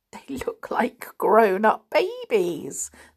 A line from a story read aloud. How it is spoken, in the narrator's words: said Mary with a giggle